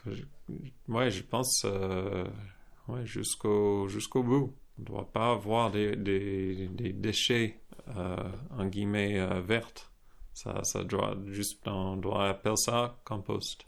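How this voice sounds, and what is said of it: Slight American accent in French. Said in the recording (French): “avec un petit accent américain”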